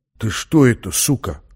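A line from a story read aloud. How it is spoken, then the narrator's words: Quiet surprise. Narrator (Russian): тихо удивился он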